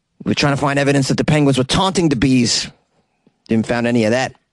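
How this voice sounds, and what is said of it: Attempted Cape Town accent. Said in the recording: “I don't even know if this is a Cape Town accent I'm doing right here. Just trying my best here.”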